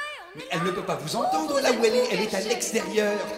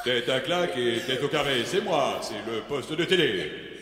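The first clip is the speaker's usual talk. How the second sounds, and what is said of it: Deep, big put-on voice. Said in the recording (French): “prendre une grosse voix et je vais me faire passer pour la télé”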